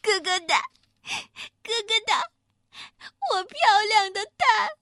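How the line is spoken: Sobbing loudly. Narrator (Chinese): 外关子小母鸡伤心的大哭

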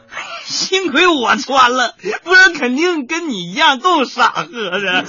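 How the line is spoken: Laughing. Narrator (Chinese): 我笑着说

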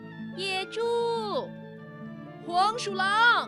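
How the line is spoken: Shouting. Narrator (Chinese): 他大声地喊

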